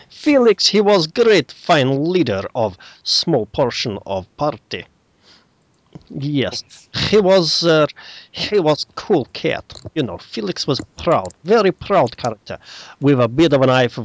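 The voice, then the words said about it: Put-on generic Eastern European accent. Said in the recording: “It was supposed to be a generic Eastern European accent, but the first time I did it, I was told it sounded like Borat.”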